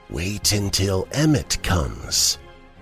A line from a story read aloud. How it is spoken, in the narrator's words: said quietly